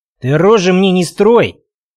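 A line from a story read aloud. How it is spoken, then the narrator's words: Sharp shout. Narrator (Russian): прикрикнул Белкин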